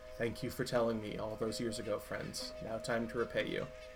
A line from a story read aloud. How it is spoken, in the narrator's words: Elder Kanga kind of sighs, and says a little bit under her breath